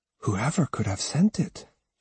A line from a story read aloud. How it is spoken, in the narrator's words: she whispered to herself